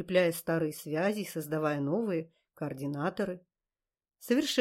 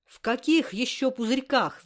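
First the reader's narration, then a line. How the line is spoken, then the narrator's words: Yelling. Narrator (Russian): заорала я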